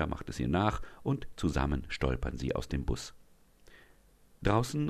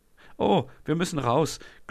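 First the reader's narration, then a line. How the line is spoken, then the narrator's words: Giggling through laughter fit. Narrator (German): gluckst Leonie, die anscheinend immer noch an einem Lachanfall leidet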